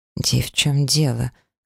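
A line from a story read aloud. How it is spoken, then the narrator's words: Muffled mutter. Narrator (Russian): глухо пробормотала в ответ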